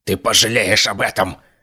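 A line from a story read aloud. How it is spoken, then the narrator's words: Hoarse wheeze. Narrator (Russian): прохрипел он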